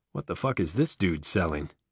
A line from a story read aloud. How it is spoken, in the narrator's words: his voice comes in a sibilant whisper through the gaps in his dentistry